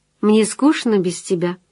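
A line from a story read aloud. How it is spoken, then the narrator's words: Plain. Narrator (Russian): сказала она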